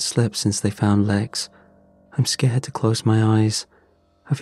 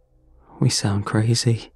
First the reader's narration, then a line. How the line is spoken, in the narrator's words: said